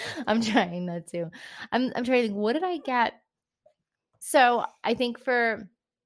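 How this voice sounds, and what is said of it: Usual voice. Nothing is said of it.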